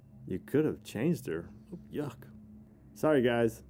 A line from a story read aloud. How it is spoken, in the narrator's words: Craig, taken back by the smell, says under his breath